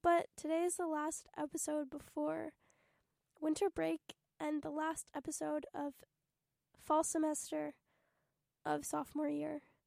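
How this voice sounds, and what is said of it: Sick, strained voice. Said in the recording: “pardon my voice, I'm, like, sick ... this is not fun to listen to”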